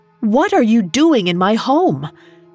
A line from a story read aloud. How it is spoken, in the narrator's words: Sheen stared at them in disbelief and shouted